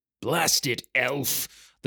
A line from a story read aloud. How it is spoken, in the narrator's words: the dwarf growled